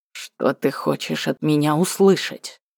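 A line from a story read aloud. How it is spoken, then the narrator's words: Words through clenched teeth. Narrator (Russian): процедил он сквозь зубы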